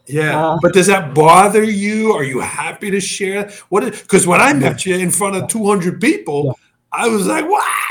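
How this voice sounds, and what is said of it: Slight foreign accent. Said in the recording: “you do have an accent for me. ... Just a touch.”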